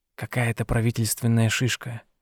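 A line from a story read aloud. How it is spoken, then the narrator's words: Whisper. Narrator (Russian): шепнул он ей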